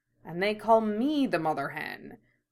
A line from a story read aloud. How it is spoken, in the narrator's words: mutters something under his breath